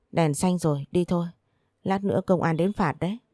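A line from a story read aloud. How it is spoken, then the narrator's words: Sighing. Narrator (Vietnamese): Tôi thở dài nói tiếp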